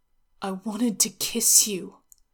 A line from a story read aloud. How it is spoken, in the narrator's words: Zhao Yunlan said